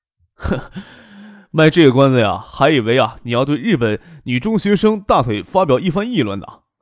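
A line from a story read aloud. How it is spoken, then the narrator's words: Laughing. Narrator (Chinese): 杨云笑着说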